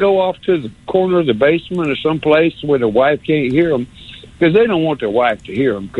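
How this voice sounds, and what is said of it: Usual voice. Nothing is said of it.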